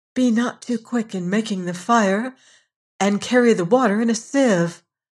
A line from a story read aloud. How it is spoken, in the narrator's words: The little girl begged